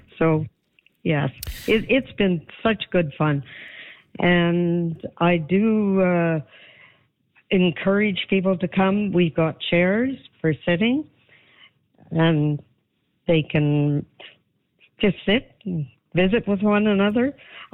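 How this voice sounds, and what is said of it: Strained, fading voice. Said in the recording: “I'm almost losing my voice. I've been visiting so much.”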